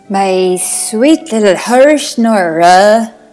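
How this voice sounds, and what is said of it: Put-on Irish accent. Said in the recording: “I'm not going to attempt that accent. That was my Irish accent.”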